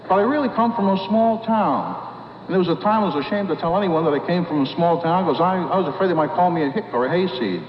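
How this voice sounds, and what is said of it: Mild New York accent. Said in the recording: “I have kind of a New York accent.”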